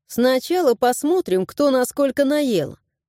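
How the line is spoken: Plain. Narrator (Russian): ответила я

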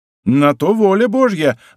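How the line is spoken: Delighted exclamation. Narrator (Russian): воскликнул в восторге Арамис

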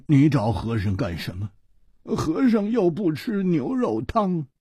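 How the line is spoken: Sighing, rueful. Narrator (Chinese): 和尚叹了一口气，他苦着脸说

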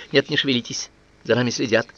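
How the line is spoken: Hurried whisper. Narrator (Russian): Марк торопливо шепнул куропатке

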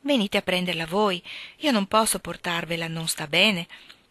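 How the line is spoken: Sugary sweet voice. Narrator (Italian): rispose lei con una voce dolce come lo zucchero

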